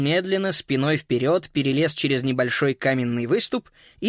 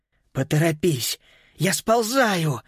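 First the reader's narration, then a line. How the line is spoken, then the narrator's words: Breathless exhale. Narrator (Russian): выдохнул Макс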